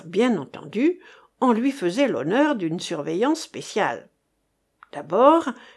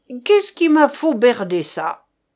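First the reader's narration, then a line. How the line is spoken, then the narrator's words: Yelled. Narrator (French): hurla-t-il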